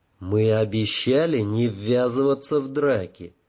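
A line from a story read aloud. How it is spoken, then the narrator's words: Gentle reminder. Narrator (Russian): мягко напомнил Эйден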